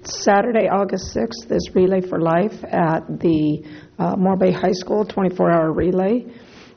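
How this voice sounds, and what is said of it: Sick, strained voice. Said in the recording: “excuse my voice. I've been sick.”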